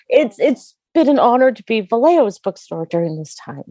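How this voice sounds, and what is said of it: Emotional, choked-up voice. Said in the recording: “now I'm getting all emotional.”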